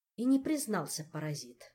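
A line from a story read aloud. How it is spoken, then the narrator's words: Grumbling, softening affection. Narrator (Russian): проворчала Эльвира, чувствуя, что не в силах долго сердиться на это чудо природы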